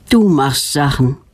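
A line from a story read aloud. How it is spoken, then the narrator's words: Sigh with a smile. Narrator (German): seufzt Knut und lächelt fast gleichzeitig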